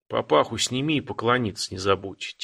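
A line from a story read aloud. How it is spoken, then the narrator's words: Quiet advice. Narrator (Russian): тихо посоветовал парню казак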